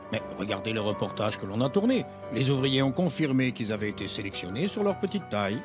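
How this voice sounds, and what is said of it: Belgian French accent. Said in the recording (French): “C'est votre accent belge, ça nous fait rigoler”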